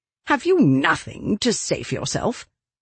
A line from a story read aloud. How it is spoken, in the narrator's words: she snapped, unable to stand the silence another second